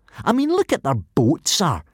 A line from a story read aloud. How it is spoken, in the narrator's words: continued the sneering Snotlout